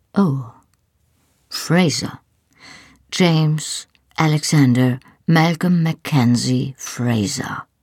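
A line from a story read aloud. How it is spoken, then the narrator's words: Solemn, slow and clear. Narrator (German): sagte er feierlich und sprach jeden Namen langsam und deutlich aus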